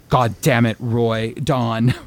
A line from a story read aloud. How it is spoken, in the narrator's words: Roy angrily replied